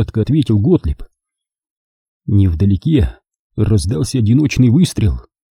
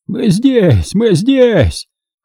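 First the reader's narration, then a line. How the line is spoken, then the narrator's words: Hoarse yelling. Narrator (Russian): хриплым голосом заорал Готлеб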